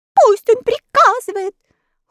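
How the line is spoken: Mice shouting in chorus. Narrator (Russian): хором закричали мыши

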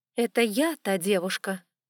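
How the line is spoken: Almost stern. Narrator (Russian): почти строго сказала Зоя

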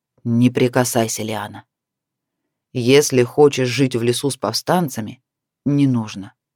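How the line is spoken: Choked, menacing. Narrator (Russian): А когда в груди появился ком, не дающий дышать, грозно выдал

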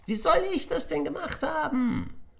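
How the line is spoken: Calling out. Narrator (German): rief Willi

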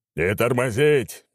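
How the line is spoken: Distant roar. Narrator (Russian): взревел где-то впереди Аршавин

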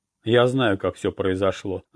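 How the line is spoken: Confident tone. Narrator (Russian): заметил я уверенным тоном

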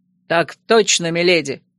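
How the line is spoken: Barked in unison. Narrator (Russian): Слаженно рявкнули эти наглецы

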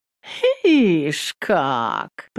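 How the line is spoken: Drawn out. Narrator (Russian): протянула баба

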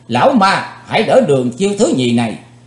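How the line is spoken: Shouting. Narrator (Vietnamese): Chấm dứt tiếng quát, Chí Tôn

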